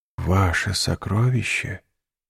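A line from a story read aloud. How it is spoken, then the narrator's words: Whispered. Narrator (Russian): прошептал Дантес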